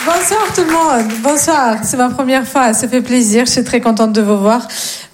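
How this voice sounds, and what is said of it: Slight singsong Russian accent. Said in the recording (French): “j'ai un petit accent, mais il est très mignon, très chantant ... je viens de Russie”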